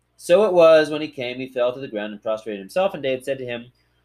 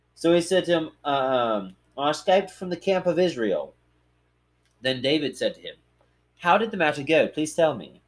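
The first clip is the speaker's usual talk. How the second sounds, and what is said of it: Put-on British accent. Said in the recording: “I'm going to give them British accents because that's what I do.”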